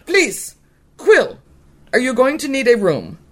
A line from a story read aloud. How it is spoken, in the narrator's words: Gina, a stocky, staid, and definitely prim older dog who never bounced and who disapproved of all bouncing, barked